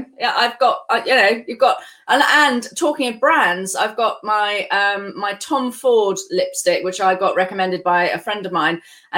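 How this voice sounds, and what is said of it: Non-American accent. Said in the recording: “if you guys can maybe tell from the accent, ... is not from the United States”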